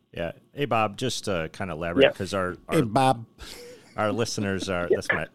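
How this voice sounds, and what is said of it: Put-on Chicago accent. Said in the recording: “that's my attempt at a Chicago ... That was good, actually.”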